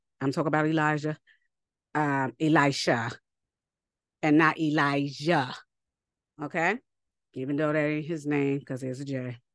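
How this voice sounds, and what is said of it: Mixed New York dialect. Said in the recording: “my dialect is, you know, mishmash from New York”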